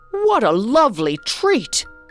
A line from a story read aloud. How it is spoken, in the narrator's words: cried the emperor